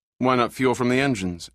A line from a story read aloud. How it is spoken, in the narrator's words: asked Dodge